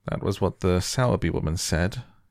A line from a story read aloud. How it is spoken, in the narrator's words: he muttered absent-mindedly